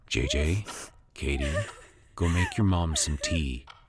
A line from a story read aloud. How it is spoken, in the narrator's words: Jeremy said softly